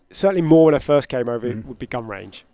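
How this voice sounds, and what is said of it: British accent. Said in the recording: “me and Harry, who obviously also British ... she just wanted to hear the accent.”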